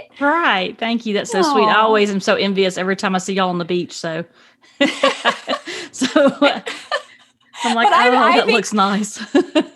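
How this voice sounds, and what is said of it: Southern Georgia drawl. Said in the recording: “your Georgian accent ... similar beautiful Southern drawl ... comforting, I think, sweet accent”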